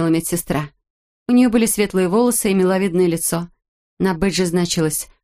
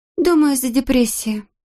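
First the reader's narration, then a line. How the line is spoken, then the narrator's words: Sighing. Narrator (Russian): Ханна вздохнула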